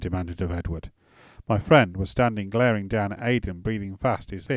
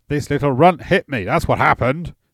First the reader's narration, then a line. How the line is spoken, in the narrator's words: Edward shouted